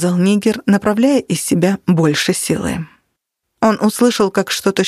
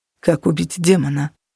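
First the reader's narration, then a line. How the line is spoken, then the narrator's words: Hypnotized monotone. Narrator (Russian): Натаниэль повторил монотонным голосом, который Нигер привык слышать от тех, кто находился под гипнозом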